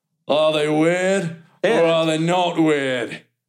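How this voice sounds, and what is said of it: Thor character voice with accent. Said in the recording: “Thor has an accent. ... That's not bad.”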